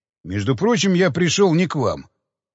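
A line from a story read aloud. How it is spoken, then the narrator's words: Cold reply. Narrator (Russian): холодно ответил Кондаков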